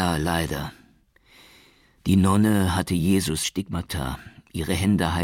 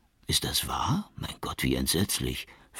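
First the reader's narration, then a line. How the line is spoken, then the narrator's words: Whispering. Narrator (German): flüsterte Mancini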